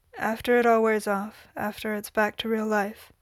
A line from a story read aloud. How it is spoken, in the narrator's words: Sam said flatly